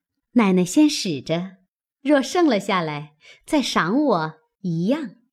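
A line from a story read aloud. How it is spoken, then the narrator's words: Knowing, laughing. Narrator (Chinese): 平儿会意，笑说道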